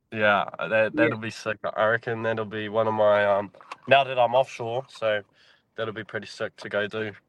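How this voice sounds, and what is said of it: New Zealand accent. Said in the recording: “you sound Australian ... I'm from New Zealand, brother. New Zealand.”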